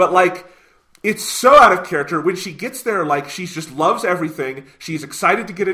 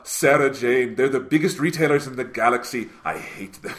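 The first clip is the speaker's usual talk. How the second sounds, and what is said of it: Bad Tom Baker impression. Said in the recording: “Tom Baker would be like ... A bad impression aside, sorry, Mr. Baker”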